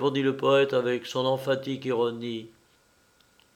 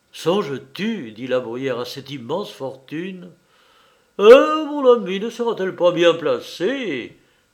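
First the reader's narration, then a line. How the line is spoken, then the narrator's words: Exclaimed. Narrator (French): s'écria Canalis en accompagnant son effusion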